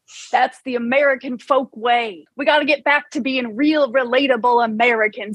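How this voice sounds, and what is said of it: Folksy rural American accent. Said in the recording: “I developed this folksy accent to be relatable and to get knowledge of American folk ways”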